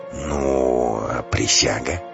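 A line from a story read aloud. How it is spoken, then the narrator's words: Glum drawl. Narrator (Russian): Вороных уныло протянул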